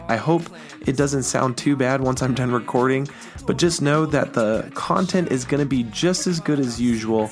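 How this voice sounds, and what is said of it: Raspy, sick-sounding voice. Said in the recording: “this is my incredibly raspy, sick voice ... just my voice just a little bit off”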